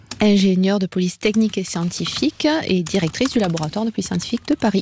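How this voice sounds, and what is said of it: Southern French accent. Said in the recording (French): “cet accent du Sud ... À part cet accent du Sud”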